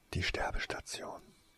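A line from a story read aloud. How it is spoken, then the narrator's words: Male whisper. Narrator (German): flüsterte er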